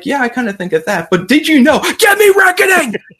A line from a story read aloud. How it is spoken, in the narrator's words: he just starts screaming at the camera again